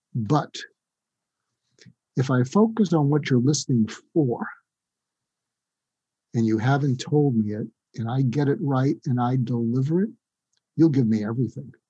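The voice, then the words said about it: Public radio announcer voice. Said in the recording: “put on my NPR voice”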